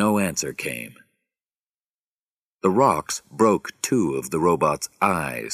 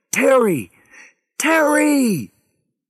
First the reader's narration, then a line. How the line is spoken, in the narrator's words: Harry screamed into his radio